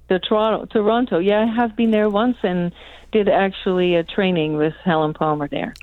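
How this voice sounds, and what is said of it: Slight Dutch accent. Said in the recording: “She's Dutch. ... the little accent, so lovely.”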